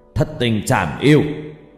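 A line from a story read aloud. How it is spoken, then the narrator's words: Shouting. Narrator (Vietnamese): Cụ hét lên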